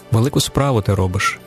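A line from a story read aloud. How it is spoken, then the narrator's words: Quiet utterance. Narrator (Ukrainian): тихо вимовив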